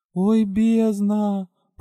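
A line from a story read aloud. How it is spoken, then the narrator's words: Embarrassed moan. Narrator (Russian): Простонала стремительно краснеющая я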